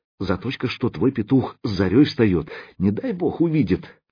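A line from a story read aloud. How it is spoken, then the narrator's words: Sighing, half-sobbing. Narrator (Russian): то ли вздохнула, то ли всхлипнула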